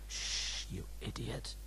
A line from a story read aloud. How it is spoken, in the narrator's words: hissed Ben